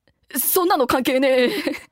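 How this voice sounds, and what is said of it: Imitates a comedian's voice. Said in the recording (Japanese): “お笑い芸人さんのモノマネしようかなお笑い芸人あじゃあ小島よしおさんで”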